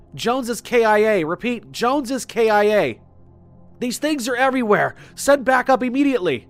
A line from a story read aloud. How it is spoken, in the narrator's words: still shouting at them